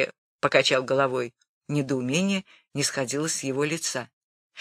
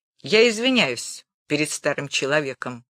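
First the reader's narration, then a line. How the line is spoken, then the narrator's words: Mocking reply. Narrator (Russian): ответил насмешливо Гулия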